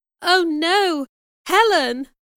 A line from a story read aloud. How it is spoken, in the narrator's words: cried